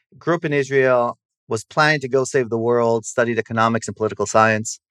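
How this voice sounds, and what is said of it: American English accent. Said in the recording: “my parents are American, so I have the accent.”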